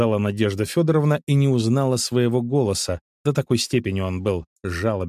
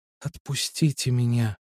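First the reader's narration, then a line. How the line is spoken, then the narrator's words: Trembling whisper. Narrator (Russian): шептала она, дрожа всем телом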